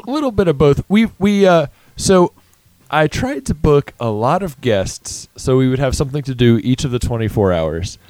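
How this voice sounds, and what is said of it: Hoarse, strained, tired voice. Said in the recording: “I'm falling apart, losing my voice. ... We're just tired.”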